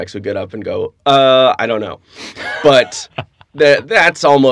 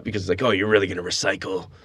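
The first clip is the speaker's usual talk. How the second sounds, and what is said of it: George Carlin impression. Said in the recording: “my Carlin impression ... he'll be doing his Carlin impression”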